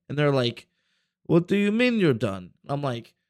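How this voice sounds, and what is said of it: Put-on Russian accent. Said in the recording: “you're doing the Russian accent again.”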